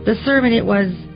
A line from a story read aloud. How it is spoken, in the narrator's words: she stammered